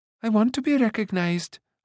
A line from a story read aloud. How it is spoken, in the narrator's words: Ailanwy cried